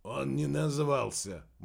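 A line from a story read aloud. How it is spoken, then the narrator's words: Grumbled. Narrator (Russian): буркнул Кеннет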